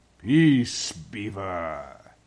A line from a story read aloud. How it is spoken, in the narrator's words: said Aslan with a very low growl